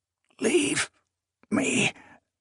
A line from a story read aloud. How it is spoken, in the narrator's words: his friend gasped